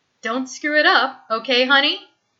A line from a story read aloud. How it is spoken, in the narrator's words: Kate says, smiling brightly